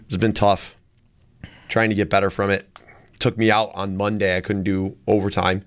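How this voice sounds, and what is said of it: Hoarse voice from a cold. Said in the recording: “I'm sounding hoarse.”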